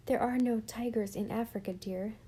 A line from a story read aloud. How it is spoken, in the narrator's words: said Mother gently